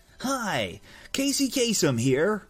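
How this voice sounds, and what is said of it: Casey Kasem impression. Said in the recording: “Casey Kasem ... Oh, that's close.”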